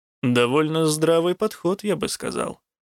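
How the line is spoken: Dry remark. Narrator (Russian): сухо заметил Рук

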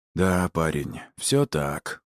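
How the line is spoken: Glum. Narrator (Russian): уныло кивнул Перефой

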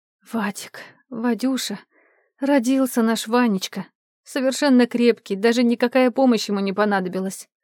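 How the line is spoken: Tired whisper. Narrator (Russian): устало прошептала Глаша

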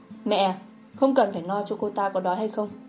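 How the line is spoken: Cold. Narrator (Vietnamese): Quý Phong lạnh lùng nói

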